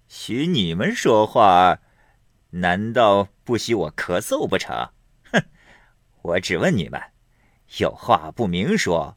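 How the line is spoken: Laughing. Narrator (Chinese): 金荣笑道

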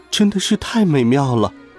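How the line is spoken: Amazed exclamation. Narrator (Chinese): 约瑟芬惊叹道

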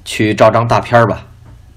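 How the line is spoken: Flat, indifferent. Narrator (Chinese): 淡淡的说

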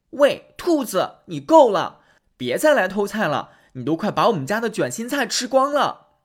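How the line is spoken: Angry shouting. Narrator (Chinese): 小姑娘这次也生气了，对兔子大吼

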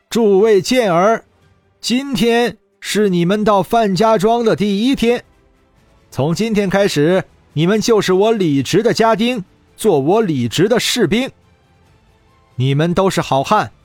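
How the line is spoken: Shouting. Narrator (Chinese): 李直大声喊道

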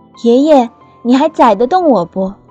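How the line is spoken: Loud question. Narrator (Chinese): 大声地问

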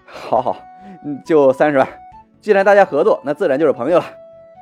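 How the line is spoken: Strained, sighing laugh. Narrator (Chinese): 方杰暗自叹了口气，表情有些艰难的笑道

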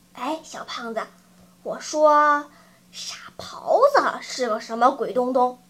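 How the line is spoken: Hushed question. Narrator (Chinese): 他压低声音问道

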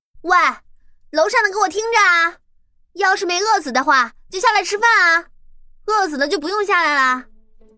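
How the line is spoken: Calling upward. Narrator (Chinese): 往上喊话

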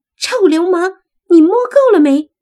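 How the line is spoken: Embarrassed, angry woman. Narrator (Chinese): 一个有些许羞恼和愤怒的女声响起来

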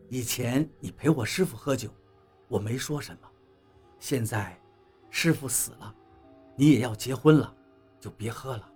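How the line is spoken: Gentle voice. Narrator (Chinese): 王八柔声对董玲说道

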